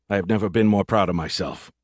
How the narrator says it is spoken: I muttered

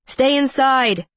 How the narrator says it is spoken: he hollered

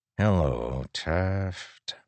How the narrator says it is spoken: Moash said softly

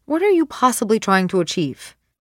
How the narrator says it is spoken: She asks quickly

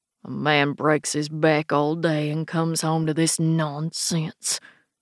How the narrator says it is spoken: mutters

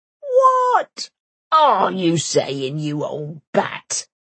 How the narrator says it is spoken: howls Bank

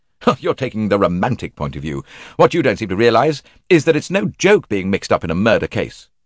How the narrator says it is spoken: Tim said crossly

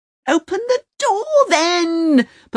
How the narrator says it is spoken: Pavana roars

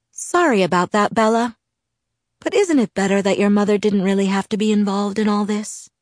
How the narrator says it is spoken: His voice was courteous, kind

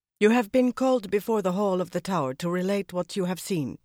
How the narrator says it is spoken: she said in a strong Tarraboner accent

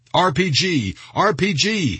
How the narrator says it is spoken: he shouted

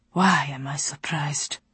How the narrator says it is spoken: He asked and sighed

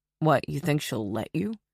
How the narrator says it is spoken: He asked sarcastically

